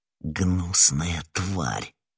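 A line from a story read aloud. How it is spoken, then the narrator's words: Muttering. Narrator (Russian): пробормотал Д'Артаньян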